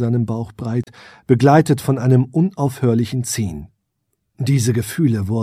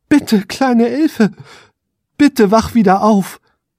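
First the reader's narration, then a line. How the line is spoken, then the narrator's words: Desperate pleading. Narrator (German): flehte er verzweifelt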